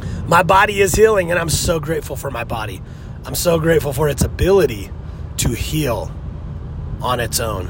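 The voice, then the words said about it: Slightly nasal, congested voice. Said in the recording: “You can hear it in my voice. Probably a little nasally today, but I've been sick for the last week.”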